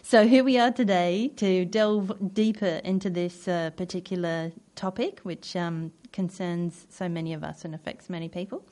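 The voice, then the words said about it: Odd mixed British-Australian accent. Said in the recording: “my odd accent because I introduced myself as a British person, but actually I grew up in Australia”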